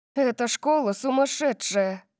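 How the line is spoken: Groaning. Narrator (Russian): Простонала Дарси

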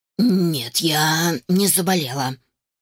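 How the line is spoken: Wheezing, hoarse. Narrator (Russian): просипела

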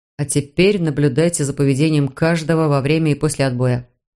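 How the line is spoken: Plain. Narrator (Russian): сказал Мур

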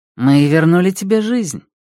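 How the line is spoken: Calm reply. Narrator (Russian): спокойно ответила Джовелланус

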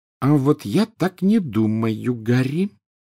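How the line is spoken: Slow speech. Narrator (Russian): медленно заговорила Гермиона

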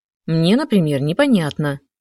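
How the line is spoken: Sharp reply. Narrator (Russian): резко ответила я

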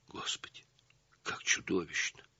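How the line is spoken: Whisper. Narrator (Russian): прошептала Светлана

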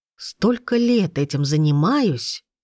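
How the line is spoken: Whispered. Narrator (Russian): прошептал

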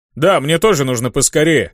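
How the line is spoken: Shouted after someone. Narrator (Russian): крикнул вслед Ханг

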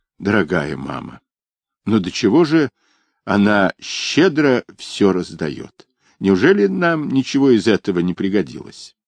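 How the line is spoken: Slightly trembling voice. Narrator (Russian): И он сказал чуть-чуть дрогнувшим голосом

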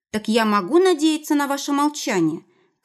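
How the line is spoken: Shouting. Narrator (Russian): крикнула ему в спину Элла

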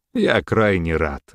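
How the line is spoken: Spoken after laughing. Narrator (Russian): отхохотав, сказал граф

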